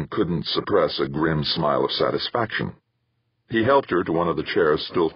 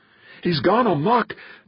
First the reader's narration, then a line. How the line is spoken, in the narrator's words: gasped, staggering to him and collapsing into his arms